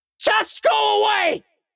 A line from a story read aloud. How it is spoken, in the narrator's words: I yelled